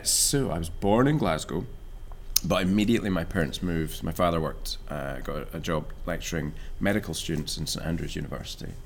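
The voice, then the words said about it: Scottish accent. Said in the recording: “your accent has changed... you sound like Gerard Butler now”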